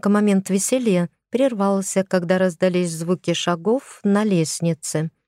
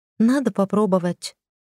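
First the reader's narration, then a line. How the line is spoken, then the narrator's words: Sighing. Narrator (Russian): вздохнула я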